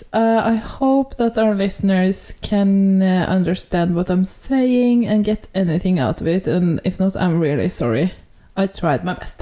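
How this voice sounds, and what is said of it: Heavy non-native English accent. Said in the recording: “my accent is growing heavier and heavier”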